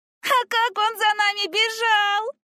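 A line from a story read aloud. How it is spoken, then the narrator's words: Young girl laughing. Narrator (Russian): рассмеялась младшая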